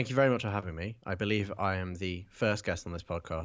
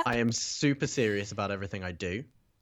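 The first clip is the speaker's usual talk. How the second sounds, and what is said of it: Sarcastic delivery. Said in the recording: “being sarcastic”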